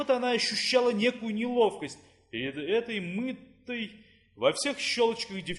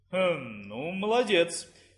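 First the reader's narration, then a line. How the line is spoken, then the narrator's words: Uncertain. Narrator (Russian): неуверенно сказала Клара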